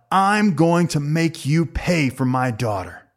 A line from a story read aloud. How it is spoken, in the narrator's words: yelled out